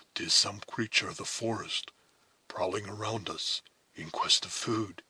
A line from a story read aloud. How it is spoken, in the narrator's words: he said in a whisper, as soon as the low and apparently distant sounds which had startled the Mohicans reached his own ears